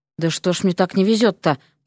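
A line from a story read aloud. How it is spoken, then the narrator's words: Muttering. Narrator (Russian): пробормотал он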